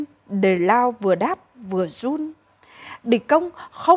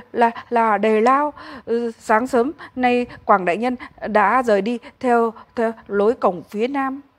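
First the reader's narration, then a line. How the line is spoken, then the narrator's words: Stammering. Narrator (Vietnamese): kẻ kia lắp bắp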